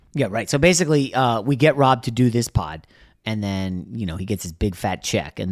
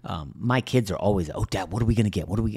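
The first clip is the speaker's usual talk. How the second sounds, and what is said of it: Speaking quietly, lowered voice. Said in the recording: “I have to say this quietly.”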